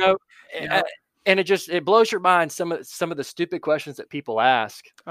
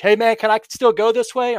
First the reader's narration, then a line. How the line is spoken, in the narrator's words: yelling from across the bridge